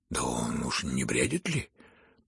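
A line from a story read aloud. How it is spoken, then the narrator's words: Muttered. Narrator (Russian): пробормотал генерал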